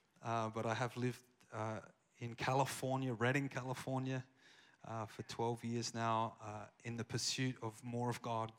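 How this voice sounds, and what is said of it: Australian accent. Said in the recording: “I have an Australian accent, if you can't tell. I haven't lost it.”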